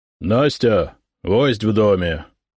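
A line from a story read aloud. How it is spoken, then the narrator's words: Loud deep bass. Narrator (Russian): громко пробасил сотник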